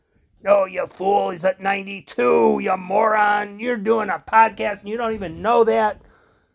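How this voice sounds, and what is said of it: Mocking voice of critics. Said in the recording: “I'm mimicking those of you who are making fun of me”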